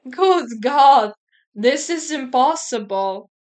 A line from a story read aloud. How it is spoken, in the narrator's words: exclaimed, horrified